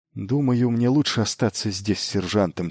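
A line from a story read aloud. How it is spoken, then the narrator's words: Quiet. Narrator (Russian): тихо проговорил он Елене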